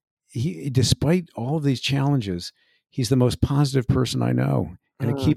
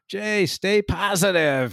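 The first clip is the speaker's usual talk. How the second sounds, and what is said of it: Imitates another person's voice. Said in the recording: “That's my best impersonation I can do.”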